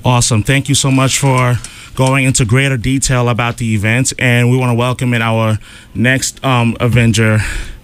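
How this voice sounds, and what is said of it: Out of breath, breathless speech. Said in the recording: “I'm a little out of breath”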